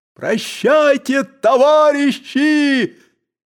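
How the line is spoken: Shouting from above. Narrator (Russian): кричал он им сверху

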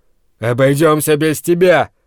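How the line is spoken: Growl. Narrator (Russian): рыкнул Брент

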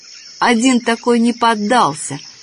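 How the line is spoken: Angry, sleepy. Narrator (Russian): сердито сонная Олишка

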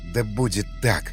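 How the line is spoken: Breathed out. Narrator (Russian): выдохнул Васнецов

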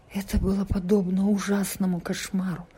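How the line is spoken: Weak voice after silence. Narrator (Russian): Сначала Чан пребывал в молчании, а затем слабым голосом произнес

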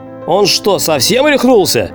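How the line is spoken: Angry exclamation. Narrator (Russian): Воскликнул я, наполняясь злобой

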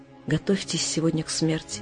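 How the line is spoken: Whispered announcement. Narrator (Russian): приносящий пищу объявил нам шепотом

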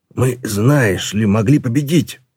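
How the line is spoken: Growling. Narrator (Russian): прорычал Ржав

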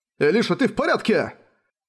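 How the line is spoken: High-pitched shout. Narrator (Russian): На высокой ноте прокричал граф

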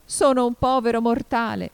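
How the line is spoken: Unhappy hatter pleading. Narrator (Italian): L'infelice cappellaio … implorò

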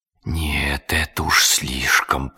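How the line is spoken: Muttered. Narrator (Russian): пробормотал он

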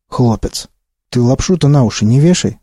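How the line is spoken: Plain. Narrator (Russian): сказал Вахтанг

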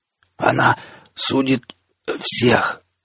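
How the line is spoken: Weak coughing rasp. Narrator (Russian): сквозь кашель из последних сил прохрипел Назар

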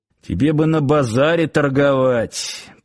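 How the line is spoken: Muttered under breath. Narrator (Russian): пробурчал под нос Сошин

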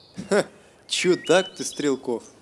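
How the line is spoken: Laughing. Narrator (Russian): Захохотал старшина

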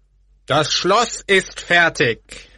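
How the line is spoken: Very loud, lord of castle. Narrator (German): sagte der Schlossherr sehr laut

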